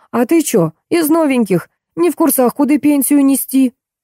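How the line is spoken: Old woman howling like siren. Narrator (Russian): старушка взвыла сиреной

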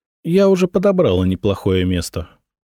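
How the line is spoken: Plain. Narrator (Russian): ответила Анна

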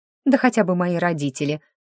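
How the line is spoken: Snorting. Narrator (Russian): фыркнула

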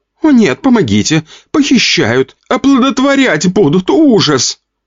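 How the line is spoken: Flat, unemotional. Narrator (Russian): Не очень эмоциональным голосом говорила рыжая

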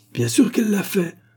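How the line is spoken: Vindictive exclamation. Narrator (French): s'écria Mademoiselle Lyle d'un air vindicatif

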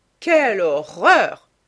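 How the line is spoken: Exclaiming. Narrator (French): s'exclama Lady Agathe

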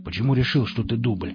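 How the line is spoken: Plain. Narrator (Russian): спросил Никита

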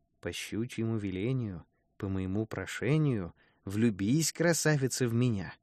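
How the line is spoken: Quiet, to himself. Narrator (Russian): он сказал про себя тихим голосом

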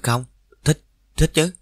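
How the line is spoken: Stammering. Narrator (Vietnamese): Tôi lắp bắp

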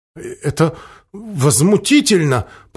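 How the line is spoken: Timid babbling. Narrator (Russian): пролепетал Мерса

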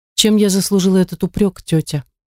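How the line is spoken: Sad. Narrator (Russian): печально промолвила Эмилия

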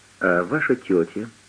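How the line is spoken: Gentle question. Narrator (Russian): ласково спросил Поль

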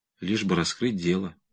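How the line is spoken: Resigned mutter. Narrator (Russian): обреченно пробормотал он

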